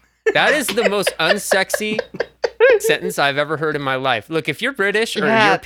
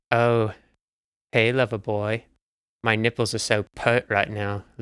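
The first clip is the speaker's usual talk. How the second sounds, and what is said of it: Put-on British accent. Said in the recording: “my British impression.”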